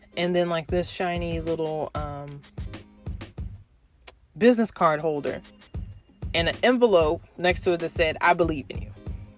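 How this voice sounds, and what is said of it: Choked-up, emotional voice. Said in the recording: “get choked up talking about this ... let me get my vocals together. I'm really getting choked up”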